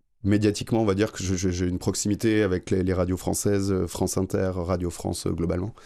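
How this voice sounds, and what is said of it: French-from-France accent. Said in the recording (French): “Comme vous l'entendez aussi à mon accent, je suis français.”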